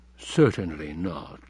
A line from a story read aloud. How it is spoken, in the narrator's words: said dryly